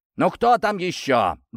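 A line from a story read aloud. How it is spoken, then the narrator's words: Displeased father barking. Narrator (Russian): гаркнул недовольно отец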